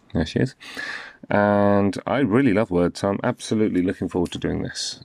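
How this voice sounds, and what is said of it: British accent. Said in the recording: “their accents are different than mine. So if you are British of any kind, English, Irish, Scottish, Welsh, their accents will probably feel a bit more comforting to you ... I'm from the UK, as you can probably tell.”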